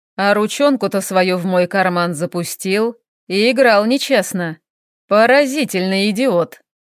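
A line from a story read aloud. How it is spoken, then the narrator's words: Chuckling. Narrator (Russian): хохотнув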